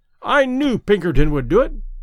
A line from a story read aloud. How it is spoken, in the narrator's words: he exclaimed triumphantly